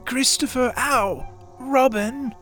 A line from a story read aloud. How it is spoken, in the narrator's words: called out the cloud